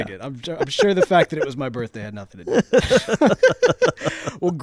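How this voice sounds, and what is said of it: Usual voice. Nothing is said of it.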